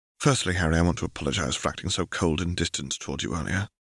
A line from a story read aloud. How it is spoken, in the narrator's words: said in a soft voice